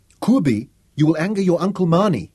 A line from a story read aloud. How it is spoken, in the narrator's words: Sarah pleaded